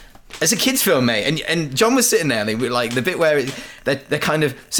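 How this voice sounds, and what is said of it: Usual voice. Nothing is said of it.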